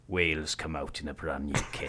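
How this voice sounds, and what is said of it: Generic put-on Welsh accent. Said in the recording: “I will do it in a generic Welsh accent ... How's that? It's like Richard Burton.”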